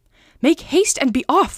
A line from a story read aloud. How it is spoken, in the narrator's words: she cried